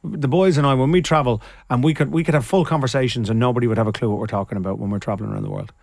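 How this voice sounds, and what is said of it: Irish Dublin accent. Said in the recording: “you sound Irish now ... I think of you with your Dublin accent”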